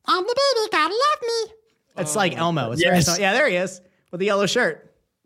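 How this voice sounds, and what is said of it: Cartoon baby dinosaur character voice. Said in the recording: “I think that's how I learned to do that voice”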